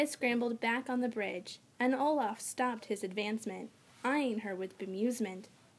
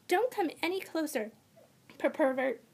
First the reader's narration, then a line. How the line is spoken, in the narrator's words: she stammered